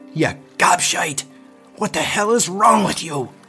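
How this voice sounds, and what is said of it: Angry woman's accented character voice. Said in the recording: “There was no mistaking that accent. What sounded so lovely in our tender moments was now frightening, like an angry female pirate.”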